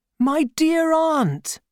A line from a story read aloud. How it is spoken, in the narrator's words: I cried